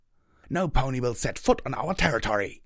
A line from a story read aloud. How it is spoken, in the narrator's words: Chrysalis snarled